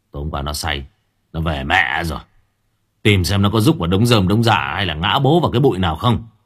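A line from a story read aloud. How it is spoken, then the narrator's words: Tired, irritable snapping. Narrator (Vietnamese): Tâm còn đang mệt gắt gỏng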